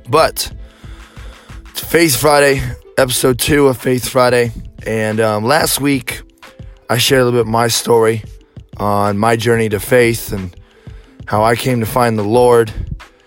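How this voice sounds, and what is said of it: Hoarse, strained, fading voice. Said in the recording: “I apologize for my voice. I am losing it”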